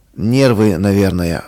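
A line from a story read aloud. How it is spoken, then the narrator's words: Sighing. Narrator (Russian): вздохнул он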